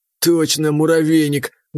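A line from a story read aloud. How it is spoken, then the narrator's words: Muffled laugh. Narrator (Russian): Глухо рассмеялся Спалот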